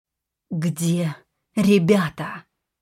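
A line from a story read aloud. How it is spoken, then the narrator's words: Forced, strained words. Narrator (Russian): выдавила я из себя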